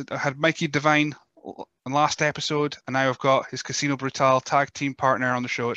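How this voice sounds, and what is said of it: Scottish accent, northern Scotland. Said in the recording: “with my Scottish accent, I don't know if it's just Chuchterness from the, up the north of Scotland”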